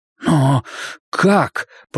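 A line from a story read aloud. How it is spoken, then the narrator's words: Muttering. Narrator (Russian): пробормотал я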